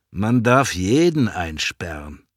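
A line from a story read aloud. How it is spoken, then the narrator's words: Plain. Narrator (German): sagt Klaus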